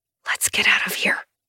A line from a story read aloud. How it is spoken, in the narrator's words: I whisper, suddenly furious with this man for having put me in this position